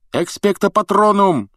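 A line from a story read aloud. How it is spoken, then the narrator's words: Shouting. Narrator (Russian): закричал Гарри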